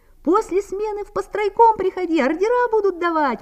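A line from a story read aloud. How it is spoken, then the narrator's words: Young man shouting from above. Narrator (Russian): прокричал с лесов молодой строитель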